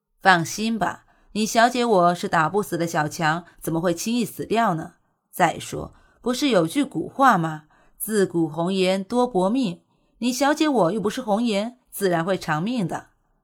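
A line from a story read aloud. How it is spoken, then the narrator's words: Calm comforting smile. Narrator (Chinese): 淡然一笑，古欣欣安慰道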